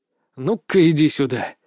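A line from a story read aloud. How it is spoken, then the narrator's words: Growl. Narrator (Russian): зарычал я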